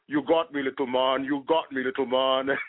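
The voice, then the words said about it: Imitates another person's voice. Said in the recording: “he actually imitated Hakeem Olajuwon ... I probably can't do the impersonation as good as KJ”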